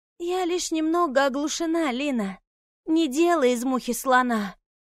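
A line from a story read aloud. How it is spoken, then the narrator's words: Faint whisper, barely moving lips. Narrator (Russian): прошептала блондинка, еле двигая губами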